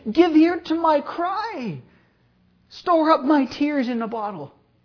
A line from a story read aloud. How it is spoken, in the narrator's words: He cannot help but exclaim